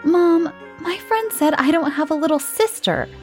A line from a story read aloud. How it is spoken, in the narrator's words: exclaimed Charlie